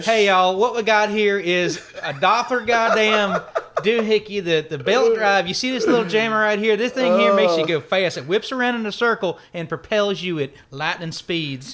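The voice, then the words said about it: Put-on redneck southern accent. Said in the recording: “someone in a really ... redneck translation, ... southern accent”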